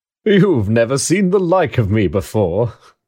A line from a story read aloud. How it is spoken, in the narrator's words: exclaimed the spirit